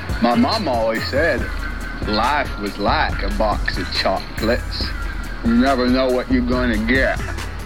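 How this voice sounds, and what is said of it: Imitates Forrest Gump's voice. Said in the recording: “do a good Forrest impression”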